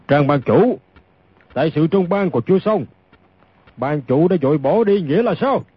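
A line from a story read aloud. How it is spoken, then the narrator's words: Deep gruff voice. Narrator (Vietnamese): Một người lên giọng ồm ồm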